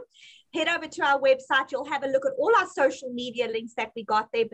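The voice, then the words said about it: South African accent. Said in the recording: “I'm going to say it in South African accent”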